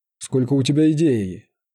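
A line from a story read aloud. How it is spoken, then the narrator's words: Mocking reply. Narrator (Russian): насмешливо отозвался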